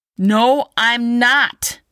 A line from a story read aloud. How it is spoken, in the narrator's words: Zack yelled